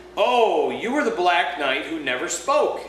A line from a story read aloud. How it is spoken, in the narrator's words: exclaimed Jill